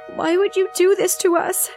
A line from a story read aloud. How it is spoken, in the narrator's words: she sobbed dramatically